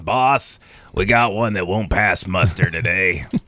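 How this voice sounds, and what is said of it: Gruff stereotyped prisoner voice. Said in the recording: “Is that your official impersonation of someone incarcerated? ... This is the go-to prisoner voice.”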